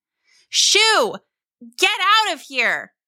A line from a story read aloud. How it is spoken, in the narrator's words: mother yelled